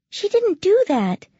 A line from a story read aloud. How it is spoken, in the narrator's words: said Lissa in a warning voice